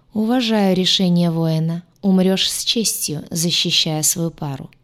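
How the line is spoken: Flat, colorless voice. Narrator (Russian): бесцветным голосом произнес говоривший

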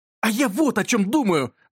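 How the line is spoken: Exclaimed. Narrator (Russian): воскликнул Юрка

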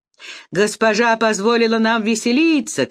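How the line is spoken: Shouting. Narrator (Russian): кричали они

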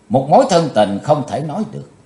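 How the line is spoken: Cold reply. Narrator (Vietnamese): Chí Tôn lạnh lùng đáp

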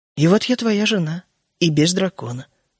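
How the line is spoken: Gentle. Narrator (Russian): закончила Джоан мягко

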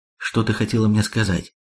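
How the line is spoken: Quiet question. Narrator (Russian): тихо спросила Анита

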